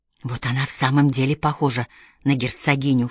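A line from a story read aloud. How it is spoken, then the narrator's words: Low undertone. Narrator (Russian): вполголоса проговорила Мэри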